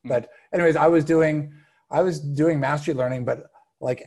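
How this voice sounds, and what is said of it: Usual voice. Nothing is said of it.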